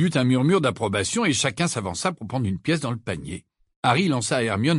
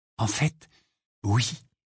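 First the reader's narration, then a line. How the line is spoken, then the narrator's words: Low-voiced admission. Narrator (French): admit Hermione à voix basse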